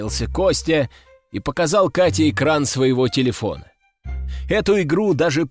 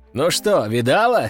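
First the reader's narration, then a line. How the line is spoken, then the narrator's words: Short laugh. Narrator (Russian): хохотнул Константин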